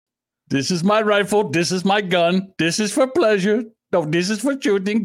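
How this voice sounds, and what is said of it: Put-on silly accent. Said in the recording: “your stupid fucking accents”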